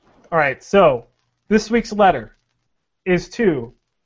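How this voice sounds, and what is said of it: Usual voice. Nothing is said of it.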